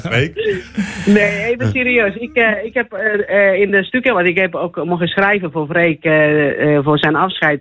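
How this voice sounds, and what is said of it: Charming-sounding accent in Dutch. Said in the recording (Dutch): “Freek heeft mij nooit begrepen, want mijn accent was... gebruikt ... dat accent ook om anderen voor haar te winnen. Zo charmant klinkt het ook altijd.”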